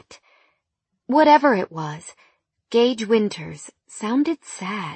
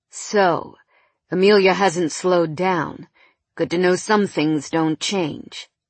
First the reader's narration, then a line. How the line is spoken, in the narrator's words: he said, his voice heavy with something I couldn't quite identify